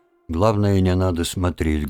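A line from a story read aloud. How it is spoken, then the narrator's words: Muffled voice. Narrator (Russian): глухо произнес Лужин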